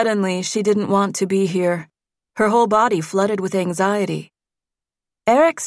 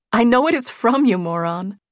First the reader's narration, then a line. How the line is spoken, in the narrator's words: said, laughing